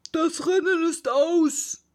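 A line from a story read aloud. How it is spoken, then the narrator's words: Sudden call. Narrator (German): rief der Dodo plötzlich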